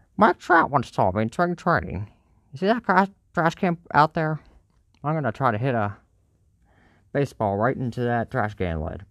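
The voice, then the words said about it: Bad impression of Tim Kurkjian. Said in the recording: “terrible Kirchin impression”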